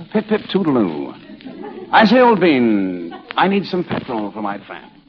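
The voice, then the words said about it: Posh English accent, Ronald Coleman impression. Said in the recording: “look at all the English actors who've made good over here. You know, like Ronald Coleman. ... That's Ronald Coleman?”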